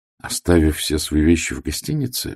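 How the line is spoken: Gentle question. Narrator (Russian): мягко спросил я

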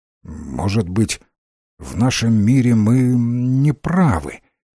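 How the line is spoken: Uncertain, anxious. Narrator (Russian): неуверенно начал Рэнсом, встревоженный тем, что натворил

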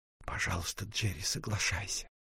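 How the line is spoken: Gentle, insistent whisper. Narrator (Russian): ласково и настойчиво шепнула она

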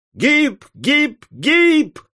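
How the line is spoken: Crowd of bettors yelling. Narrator (Russian): орали державшие пари за Соединенные Штаты

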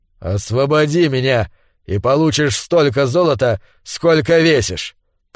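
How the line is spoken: Grumbling. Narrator (Russian): проворчал Конан

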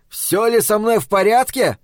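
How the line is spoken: Loud yell. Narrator (Russian): заорал я на всю кухню

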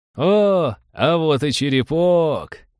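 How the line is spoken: Joyful shout. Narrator (Russian): радостно заорал Скуртл

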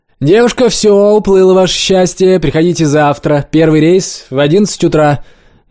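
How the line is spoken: Cheerful shout through megaphone. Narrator (Russian): весело закричала женщина с мегафоном

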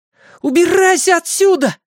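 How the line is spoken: Shouted. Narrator (Russian): закричал Майк

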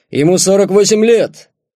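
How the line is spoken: Shouting out. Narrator (Russian): Руководитель выкрикнет

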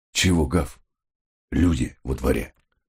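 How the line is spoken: Whisper through clenched teeth. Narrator (Russian): шепотом просимофорил он, не разжимая зубов, словно начинающий актер-чревовещатель

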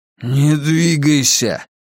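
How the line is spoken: Hoarse wheeze. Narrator (Russian): прохрипел Рауль

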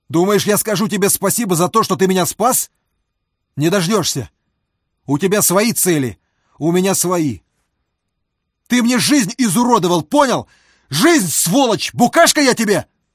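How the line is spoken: Sudden yell, twisted mouth. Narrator (Russian): Вдруг заорал он, кривя рот

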